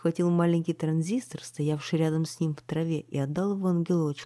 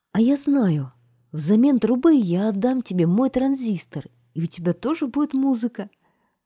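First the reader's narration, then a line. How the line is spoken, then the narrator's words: Exclamation. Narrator (Russian): Наконец его лицо просветлело, и он воскликнул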